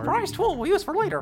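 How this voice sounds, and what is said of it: Mickey Mouse impression. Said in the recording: “That was a really good impression. ... a really good Mickey impression”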